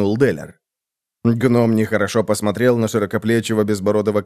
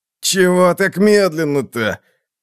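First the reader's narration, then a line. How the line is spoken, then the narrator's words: Groan. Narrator (Russian): Простонал Халлас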